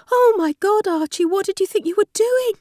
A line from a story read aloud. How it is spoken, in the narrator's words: Polly cried